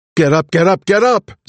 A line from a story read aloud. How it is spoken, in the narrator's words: Zig shouted